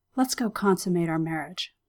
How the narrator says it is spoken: Anya whispered in Xander's ear

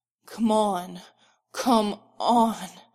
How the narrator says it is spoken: Derek growls

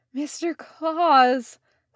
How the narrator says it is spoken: said Leo, practically sobbing with relief

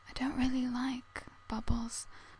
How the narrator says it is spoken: Kame whispered

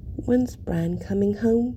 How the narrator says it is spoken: he murmurs

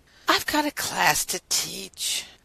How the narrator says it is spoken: Rodney said with a heavy sigh

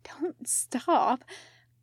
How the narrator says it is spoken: Khan whispers

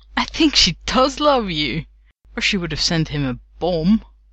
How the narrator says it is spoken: He gasped out

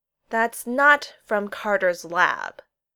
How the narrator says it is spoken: McKay finally said, speaking slowly and clearly

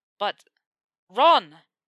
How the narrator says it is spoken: Harry snapped at him

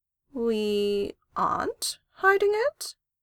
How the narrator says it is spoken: she tried, slowly

